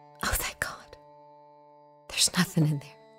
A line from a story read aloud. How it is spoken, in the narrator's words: whispered gratefully